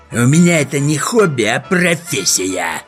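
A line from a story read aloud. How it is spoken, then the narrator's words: Hissed. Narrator (Russian): прошипел Хемуль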